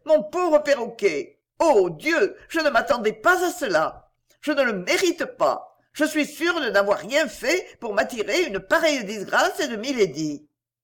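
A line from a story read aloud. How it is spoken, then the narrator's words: Distressed outcry. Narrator (French): s'écria-t-elle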